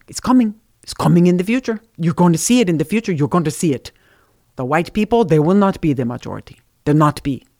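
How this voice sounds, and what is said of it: Imitated thick Hungarian-sounding accent. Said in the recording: “he had a really thick accent. He was from, where was Birch from? I think he was from Hungary. ... I'm doing my best Birch, you know, impersonation, but I'm not very good at it.”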